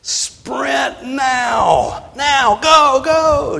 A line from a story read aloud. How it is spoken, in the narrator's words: Just as loud as I could yell